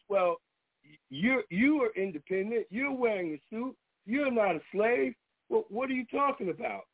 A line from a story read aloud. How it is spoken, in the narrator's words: someone yelled out of the audience